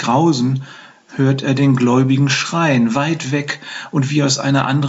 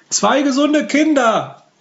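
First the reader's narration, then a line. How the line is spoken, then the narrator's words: Midwife calling out. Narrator (German): ruft die Hebamme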